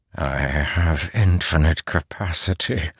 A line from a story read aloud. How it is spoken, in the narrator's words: Odium whispered, his voice ragged